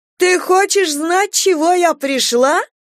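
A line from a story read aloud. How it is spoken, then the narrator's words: Distant shrill voice. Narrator (Russian): доносился из-за дома визгливый голос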